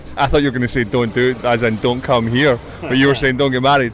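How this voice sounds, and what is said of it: Scottish accent. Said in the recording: “I detected a bit of an accent there ... And you're from Scotland?”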